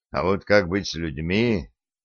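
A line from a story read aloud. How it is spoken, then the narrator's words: Barely audible mutter. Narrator (Russian): чуть слышно пробормотал Олег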